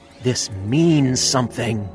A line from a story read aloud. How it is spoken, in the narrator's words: quoting Richard Dreyfuss's character, with all of his obsessive mania, exclaim